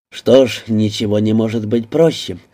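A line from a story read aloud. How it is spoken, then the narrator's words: Amused grunt. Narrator (Russian): хмыкнул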